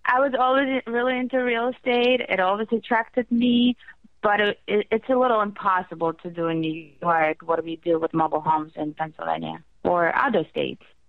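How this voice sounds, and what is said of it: Foreign accent. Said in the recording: “I'm hearing the accent in your voice.”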